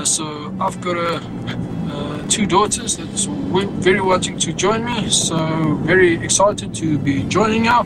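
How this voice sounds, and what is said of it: Accent close to South African. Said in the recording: “It is so close to a South African accent, especially when he started with, how's it, bro?”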